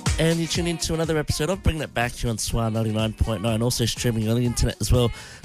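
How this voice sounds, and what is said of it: Congested, blocked-nose voice. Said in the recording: “I sound so congested up, don't I?”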